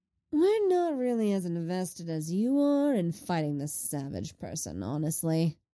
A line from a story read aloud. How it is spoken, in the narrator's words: Lenny drawls